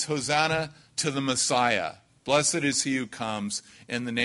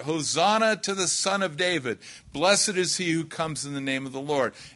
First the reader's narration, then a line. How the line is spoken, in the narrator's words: they cried out